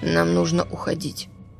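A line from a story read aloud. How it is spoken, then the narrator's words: Hoarse. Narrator (Russian): говорит он хрипло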